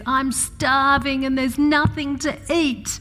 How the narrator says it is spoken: teenager says

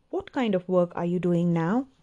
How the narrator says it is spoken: he asked

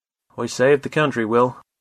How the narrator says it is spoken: he said

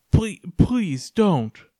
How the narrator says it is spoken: begged

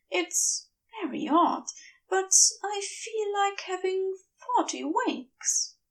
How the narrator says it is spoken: murmurs

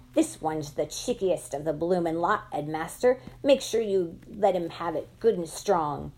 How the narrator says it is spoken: Pratchett's dreadful high-pitched voice behind me screeching

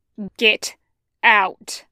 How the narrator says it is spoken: he growls

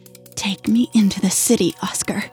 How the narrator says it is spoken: spat it out and quickly whispered

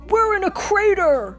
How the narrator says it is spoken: Buzz cried

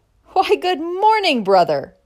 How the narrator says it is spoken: cried Cameron

